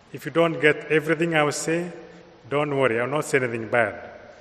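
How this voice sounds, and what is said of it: Kenyan-accented English. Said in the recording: “I come from Kenya, so my accent is imported from Kenya.”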